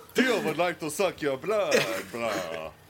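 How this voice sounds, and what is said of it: Put-on Transylvanian vampire accent. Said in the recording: “In his vampire Transylvania accent. ... It was Russian.”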